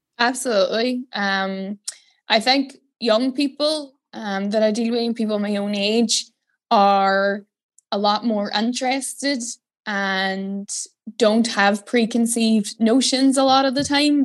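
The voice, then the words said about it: Northern Irish Derry accent. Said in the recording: “your lovely accent,... you're coming down from Derry”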